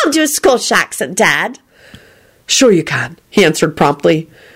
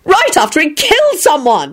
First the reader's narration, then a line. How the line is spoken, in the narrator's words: Elizabeth yelled